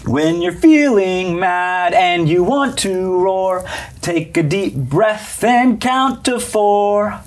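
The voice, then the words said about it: Sings in a cartoon mother's voice. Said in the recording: “my best Mommy Tiger impression”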